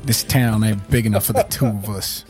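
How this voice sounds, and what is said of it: Put-on Western or Southern accent. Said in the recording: “why are we all doing Western accents all or Southern accents? I'm not sure what accents these are.”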